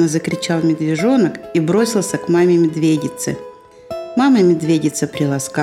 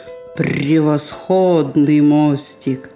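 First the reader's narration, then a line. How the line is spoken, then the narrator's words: Deep bass voice. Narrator (Russian): медведица пробасила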